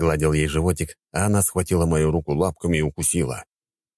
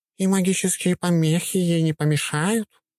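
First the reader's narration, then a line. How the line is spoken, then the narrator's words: Purring. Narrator (Russian): промурлыкала кошка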